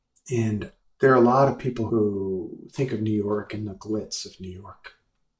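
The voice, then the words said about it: Brooklyn New York accent. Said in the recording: “I grew up in Brooklyn. It's kind of obvious from my accent.”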